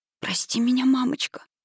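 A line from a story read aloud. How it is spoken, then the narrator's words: Dry-lipped whisper. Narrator (Russian): прошептал он пересохшими губами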